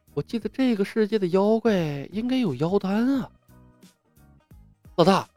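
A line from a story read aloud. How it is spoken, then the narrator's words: Quiet muttering. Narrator (Chinese): 李牧小声嘀咕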